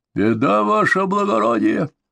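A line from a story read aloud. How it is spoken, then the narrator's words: Hoarse rasp. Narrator (Russian): прохрипел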